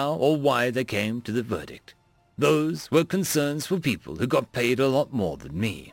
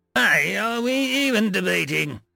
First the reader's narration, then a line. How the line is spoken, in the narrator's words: Impatiently said the Fossiv, a hulking mountain of fur and muscle